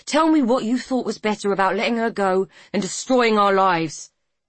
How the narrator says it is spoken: he spat

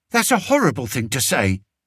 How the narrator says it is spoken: said Martha sharply

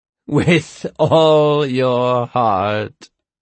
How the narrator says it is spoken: Hatch laughed

